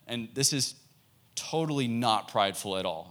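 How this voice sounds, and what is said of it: Sarcastic tone. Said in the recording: “you hear the sarcasm in my tone.”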